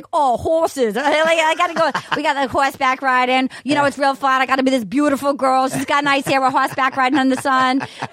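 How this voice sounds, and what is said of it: Put-on Rhode Island accent. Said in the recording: “he had a Rhode Island accent come out because I'm from Rhode Island”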